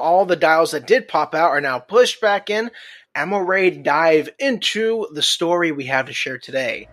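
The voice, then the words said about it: Southern American accent. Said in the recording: “my southern accent's getting in the way”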